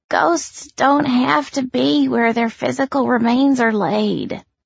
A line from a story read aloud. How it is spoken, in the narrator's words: Kiana said, her voice weary